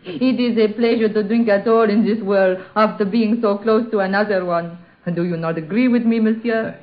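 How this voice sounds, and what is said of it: French accent. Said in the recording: “You're French, aren't you? ... that accent”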